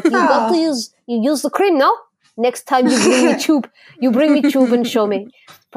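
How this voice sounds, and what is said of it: Mediocre put-on Russian accent. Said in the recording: “it was a Russian lady ... Probably slightly not a great accent”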